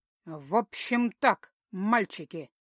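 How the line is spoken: Sarcastic, through gritted teeth. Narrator (Russian): язвительно процедила

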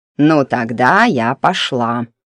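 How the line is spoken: Creaky old woman's voice. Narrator (Russian): проскрипела корга

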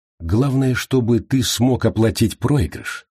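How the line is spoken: Soft reply. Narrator (Russian): мягко отозвалась Гранни

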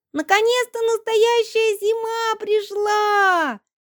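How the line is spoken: Children shrieking. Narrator (Russian): визжала детвора

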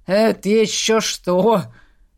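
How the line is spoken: Scoffing snort. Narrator (Russian): хмыкнул Грым

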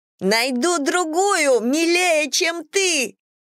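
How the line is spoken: Shout in a strange voice. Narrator (Russian): крикнула Эмбер, но это был не ее голос

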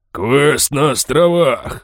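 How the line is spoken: Deep bass, pirate. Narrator (Russian): басил синекожий пират

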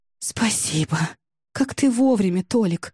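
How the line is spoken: Breathless exhale. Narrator (Russian): выдохнула Ксюша

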